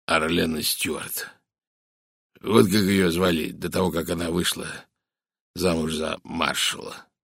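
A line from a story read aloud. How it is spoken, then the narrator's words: Hoarse whisper. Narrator (Russian): хрипло прошептал майор Барри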